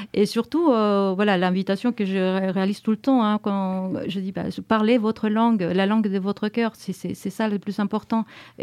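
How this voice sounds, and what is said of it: French spoken with a foreign accent. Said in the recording (French): “je parle le français couramment, avec mon accent certes”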